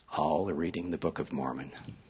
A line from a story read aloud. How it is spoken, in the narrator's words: She whispered